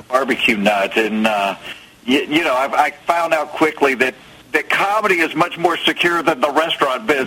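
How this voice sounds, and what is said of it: Southern American accent. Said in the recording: “the routine is too southern for a national network ... have you ever heard me talk? ... I'm not faking this accent. This is, I am from the South.”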